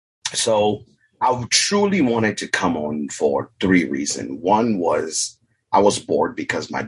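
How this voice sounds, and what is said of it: African accent. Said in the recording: “I'm originally from Africa. I'm an immigrant. I have an accent.”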